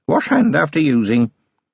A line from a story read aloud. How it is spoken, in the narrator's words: she said, in an offhand voice